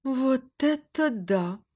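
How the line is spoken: Thoughtful drawl. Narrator (Russian): протянула задумчиво Мария

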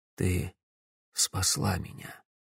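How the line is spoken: Quiet. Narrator (Russian): тихо сказал

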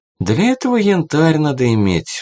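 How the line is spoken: Sighing violinist. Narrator (Russian): вздохнул скрипач

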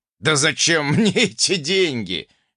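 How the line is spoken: Cheerful chuckle. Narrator (Russian): весело хохотнул предок

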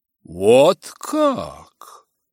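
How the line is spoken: Exclaiming. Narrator (Russian): воскликнула миссис Беннет

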